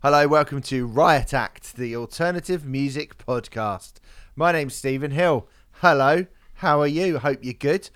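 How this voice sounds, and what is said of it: Strained voice after singing. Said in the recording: “my voice sounds a bit off. I was doing some singing yesterday, singing some karaoke”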